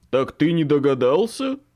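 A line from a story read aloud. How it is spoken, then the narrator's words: Chuckling. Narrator (Russian): хохотнул Грум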